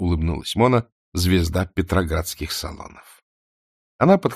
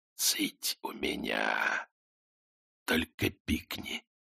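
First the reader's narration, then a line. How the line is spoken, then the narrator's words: Quiet whispered command. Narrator (Russian): Тихий шепот приказал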